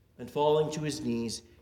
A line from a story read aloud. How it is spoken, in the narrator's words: he cried out with a loud voice